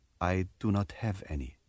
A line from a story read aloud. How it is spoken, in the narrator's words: Yasmin raises her hand defensively and softly says